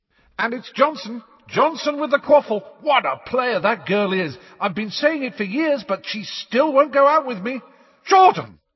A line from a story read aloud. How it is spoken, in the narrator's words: yelled Professor McGonagall